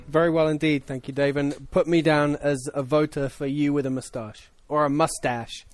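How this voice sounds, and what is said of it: English accent. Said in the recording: “from England ... Is that an English accent that I heard?”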